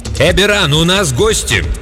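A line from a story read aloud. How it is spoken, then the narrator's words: Unnaturally loud woman's shout. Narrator (Russian): Голос женщины прозвучал неестественно громко, когда она крикнула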